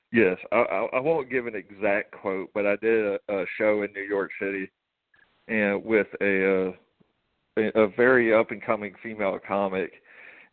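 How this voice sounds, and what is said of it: Southern American drawl. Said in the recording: “it's that Southern drawl you got... It's just the Southern drawl, really.”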